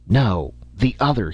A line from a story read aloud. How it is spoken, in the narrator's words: he gasped